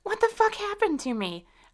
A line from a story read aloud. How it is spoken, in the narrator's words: I screamed